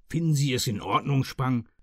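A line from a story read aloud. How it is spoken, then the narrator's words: Growl. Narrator (German): knurrte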